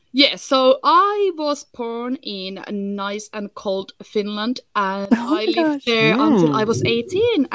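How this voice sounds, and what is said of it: Finnish accent in English. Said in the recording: “I don't sound like very smart, posh English ... I'm originally from Finland, so hence why I got a little bit of, you know, hilly-billy accent ... now I'm stuck with this Finnish.”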